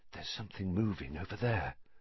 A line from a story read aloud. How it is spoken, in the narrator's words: Harry breathed